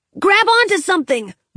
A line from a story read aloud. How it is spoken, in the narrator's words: shouted as the ship went over the edge